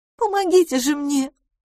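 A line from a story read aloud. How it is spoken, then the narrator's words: Pleading voice. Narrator (Russian): умоляющим голосом произнесла мисс Лафос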